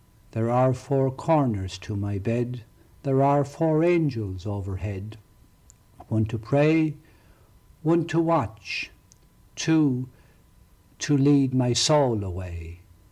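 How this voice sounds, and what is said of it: Speaker's own regional accent. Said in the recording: “hopefully you are used to my accent at this stage”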